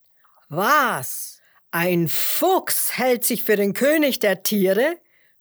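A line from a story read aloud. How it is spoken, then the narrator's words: Indignant lion's roar. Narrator (German): brüllte der Löwe empört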